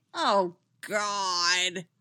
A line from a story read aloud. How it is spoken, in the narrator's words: Winona groaned